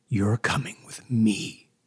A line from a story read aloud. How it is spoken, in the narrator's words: hissed